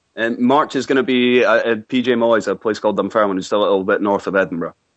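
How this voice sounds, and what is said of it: Scottish accent. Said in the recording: “I love the accent so much.”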